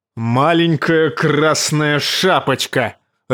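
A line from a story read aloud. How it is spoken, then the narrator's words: Barked. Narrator (Russian): рявкнул он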